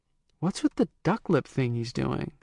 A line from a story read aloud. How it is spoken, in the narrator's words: someone asked quietly